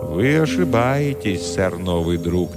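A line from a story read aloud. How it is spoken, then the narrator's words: Sad. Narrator (Russian): печально сказал король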